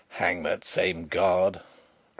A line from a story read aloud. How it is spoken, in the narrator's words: growled Sapt